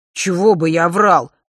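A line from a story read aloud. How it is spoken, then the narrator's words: Skeptical scoff. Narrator (Russian): хмыкнул друг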